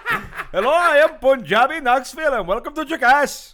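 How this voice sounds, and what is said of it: Put-on Indian accent. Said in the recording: “like an Indian dude ... an Indian bird, like not a Native American bird ... my offensive accent”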